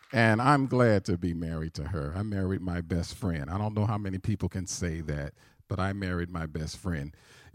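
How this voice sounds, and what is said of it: Southern American accent. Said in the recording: “I do have a southern accent ... I'm a Southern voice, so when you hear that come out, every once in a while it really slips out”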